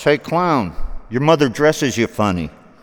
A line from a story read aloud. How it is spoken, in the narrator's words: some joker from a passing car window shouts